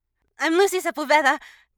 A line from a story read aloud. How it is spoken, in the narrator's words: the kid squeaked